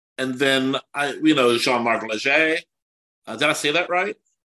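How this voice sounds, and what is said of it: Slight French accent on a name. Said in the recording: “I like the little French accent, little French a little bit. Emphasis there. French.”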